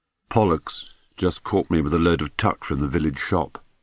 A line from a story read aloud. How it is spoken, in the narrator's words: I said in a low voice, laden with doom